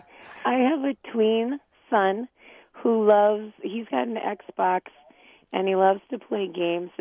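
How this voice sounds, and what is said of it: Rough, unwell-sounding voice. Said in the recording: “apologize for my voice ... Allergy season.”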